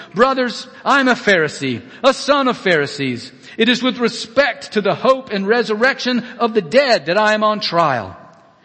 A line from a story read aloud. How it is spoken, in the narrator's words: he cried out to the council